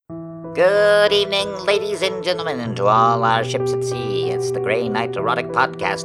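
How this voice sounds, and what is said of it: Old-timey announcer voice. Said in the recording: “I don't know why I'm doing this voice, because it's not in any way an old-timey episode ... with a better and sexier voice than this one”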